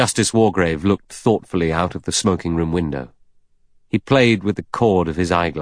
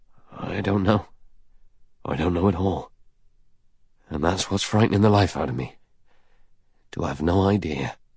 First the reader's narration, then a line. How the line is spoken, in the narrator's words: He said hoarsely